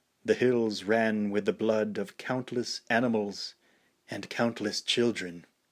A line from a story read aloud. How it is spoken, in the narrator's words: He continued in a faraway voice